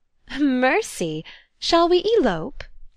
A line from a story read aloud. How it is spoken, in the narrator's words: she laughed